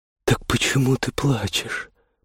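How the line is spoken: Tender whisper. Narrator (Russian): прошептал ласково

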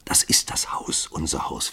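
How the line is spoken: Whisper. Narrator (German): flüsterte sie

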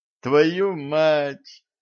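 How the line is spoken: Groan. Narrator (Russian): простонала Дашка

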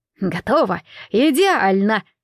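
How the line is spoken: Joyful pleased exclamation. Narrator (Russian): радостно воскликнул довольный своей работой повар

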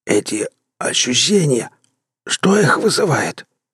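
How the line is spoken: Hoarse croak, dry lips. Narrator (Russian): прохрипел я пересохшими губами

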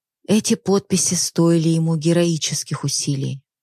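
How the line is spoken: Sighing. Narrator (Russian): вздохнув, проговорила

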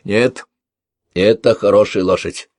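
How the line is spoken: Contemptuous snort. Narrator (Russian): Калакша презрительно фыркнул

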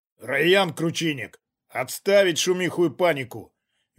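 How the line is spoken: Stern command. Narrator (Russian): велел Глеб строго

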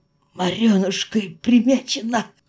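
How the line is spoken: Hoarse breathy exclamation. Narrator (Russian): хрипло выдохнула

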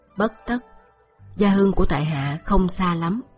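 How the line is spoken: Smiling. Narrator (Vietnamese): Diệp Khai mỉm cười

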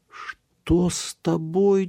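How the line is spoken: Nearly cried out. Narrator (Russian): чуть не вскрикнула она

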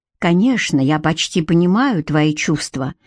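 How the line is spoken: Whisper. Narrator (Russian): прошептал он

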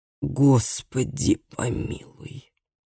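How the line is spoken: Exhausted breathless exhale. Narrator (Russian): выдохнул измученный Микаэль

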